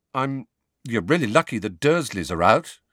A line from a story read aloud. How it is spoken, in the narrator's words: he mumbled